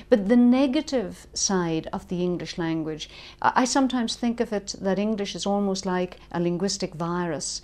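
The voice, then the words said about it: Irish accent. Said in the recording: “as you can probably hear from my accent, I come from Ireland”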